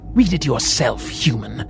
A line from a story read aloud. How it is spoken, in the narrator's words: the demon growled, masking his oncoming fear in anger